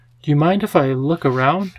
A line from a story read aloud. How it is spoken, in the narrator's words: asked cheerfully